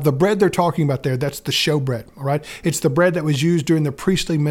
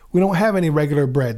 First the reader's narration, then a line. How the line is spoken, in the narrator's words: the priest replied